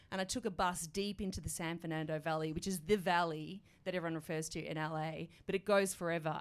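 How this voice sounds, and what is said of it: Australian accent. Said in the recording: “Are you from Australia? Are you from Melbourne? I can tell the accent.”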